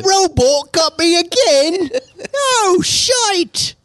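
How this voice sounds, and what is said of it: Put-on Australian accent. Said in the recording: “It's Australian. ... I was doing an Australian accent.”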